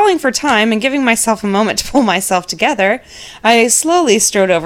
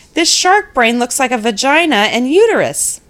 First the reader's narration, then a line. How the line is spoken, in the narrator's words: he called out